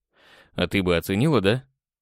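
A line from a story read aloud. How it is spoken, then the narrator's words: Snorting. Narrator (Russian): хмыкнул я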